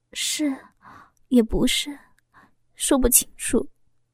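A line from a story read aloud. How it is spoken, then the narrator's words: Soft. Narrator (Chinese): 轻声的说着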